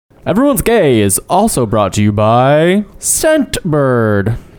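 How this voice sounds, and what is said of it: Announcer-style radio voice. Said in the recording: “Radio voice is back.”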